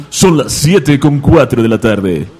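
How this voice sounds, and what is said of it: Radio announcer voice. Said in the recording (Spanish): “hazlo con voz de locutor”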